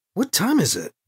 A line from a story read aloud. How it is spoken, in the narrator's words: Alibi asked